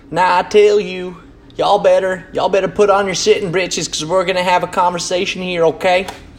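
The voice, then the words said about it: Exaggerated country hillbilly accent. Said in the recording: “apologies for the country accent there ... a caricature of a hillbilly”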